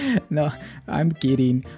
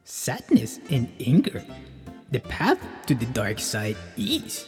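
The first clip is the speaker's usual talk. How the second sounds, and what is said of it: Poor Yoda character voice. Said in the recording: “My mom doesn't sound like Yoda whatsoever. That was a horrible impersonation of Yoda.”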